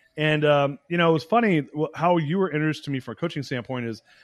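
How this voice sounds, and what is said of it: Usual voice. Nothing is said of it.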